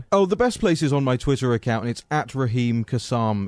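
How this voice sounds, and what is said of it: Charming accent. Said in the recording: “charming accent”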